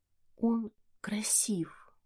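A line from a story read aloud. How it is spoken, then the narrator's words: Whisper. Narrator (Russian): прошептала я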